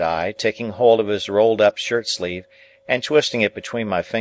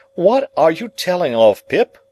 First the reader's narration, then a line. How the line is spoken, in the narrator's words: cried Joe, in the greatest amazement